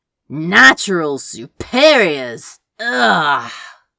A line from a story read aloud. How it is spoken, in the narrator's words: Crow groaned